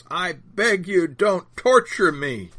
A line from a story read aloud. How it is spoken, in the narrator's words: the spirit speaking through the demonized man is shouting at the top of his lungs